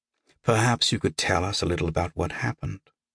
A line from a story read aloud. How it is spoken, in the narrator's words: Deera said gently